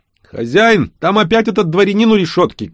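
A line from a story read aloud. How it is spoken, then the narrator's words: Shouting. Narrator (Russian): крикнул Шаст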